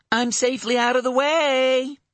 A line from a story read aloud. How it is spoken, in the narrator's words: she called, loudly enough to be easily heard